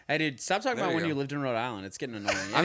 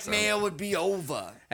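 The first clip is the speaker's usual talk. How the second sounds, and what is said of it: Put-on Boston accent. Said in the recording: “I did it Boston ... That's a Boston accent, dude. ... That's a Boston accent.”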